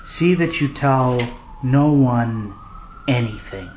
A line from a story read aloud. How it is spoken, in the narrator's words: Warned sternly